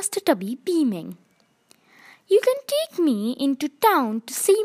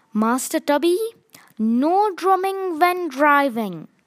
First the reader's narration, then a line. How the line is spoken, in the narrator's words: she said firmly